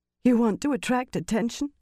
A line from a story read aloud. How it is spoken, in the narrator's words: Alejandra said hoarsely